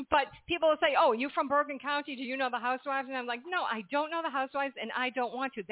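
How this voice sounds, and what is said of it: Massachusetts accent, not New Jersey. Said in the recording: “I could tell the accent ... It's not a Jersey girl ... accent”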